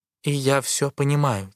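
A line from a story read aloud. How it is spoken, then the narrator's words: Quiet. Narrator (Russian): тихо продолжает Джиджи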